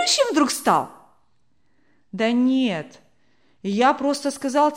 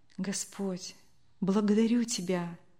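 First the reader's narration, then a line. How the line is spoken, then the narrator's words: Grateful whisper. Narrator (Russian): прошептала добрая женщина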